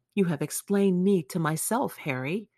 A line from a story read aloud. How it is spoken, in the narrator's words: he murmured with something of a sigh of relief